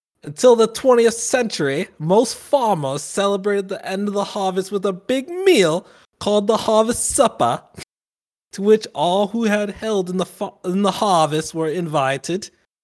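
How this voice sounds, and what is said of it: Put-on British accent. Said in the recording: “let me try again with this British accent”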